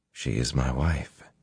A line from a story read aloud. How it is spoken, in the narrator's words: he said softly